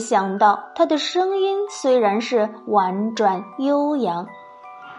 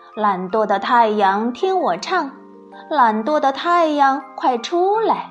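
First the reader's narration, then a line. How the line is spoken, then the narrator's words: Clear, ringing voice. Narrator (Chinese): 他的声音的确又清脆又嘹亮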